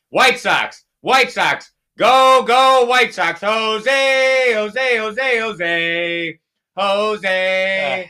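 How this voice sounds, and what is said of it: Cheerleader-style chanting. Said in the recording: “You sound like a cheerleader.”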